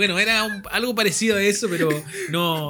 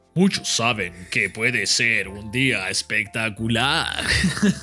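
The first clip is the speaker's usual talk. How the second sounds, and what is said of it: Imitates a radio announcer's voice. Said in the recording (Spanish): “una voz muy radial ... voy a tratar de imitarlo”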